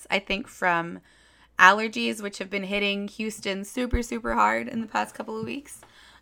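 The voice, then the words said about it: Hoarse, weakened voice. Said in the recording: “I'm a little hoarse. My voice is slowly returning to me. ... I got laryngitis”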